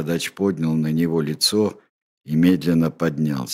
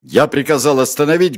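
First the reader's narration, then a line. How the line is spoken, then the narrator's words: Barked shout. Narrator (Russian): гаркнул фриц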